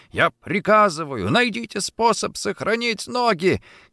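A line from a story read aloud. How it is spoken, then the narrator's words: Shouting. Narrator (Russian): кричал он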